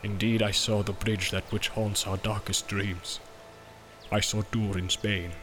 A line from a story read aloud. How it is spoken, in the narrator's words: said Gimli in a low voice, and dread was in his eyes